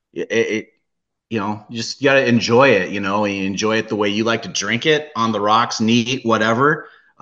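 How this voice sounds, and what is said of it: Hints of Canadian or Midwest accent. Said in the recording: “I'm picking up hints of Canadian in your accent, or possibly Midwest. Are you originally from the Pacific Northwest?”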